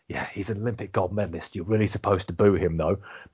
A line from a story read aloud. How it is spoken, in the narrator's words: maybe whispering in my ear, saying